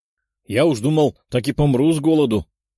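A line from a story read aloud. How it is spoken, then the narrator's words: Exclamation. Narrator (Russian): воскликнул человек-шар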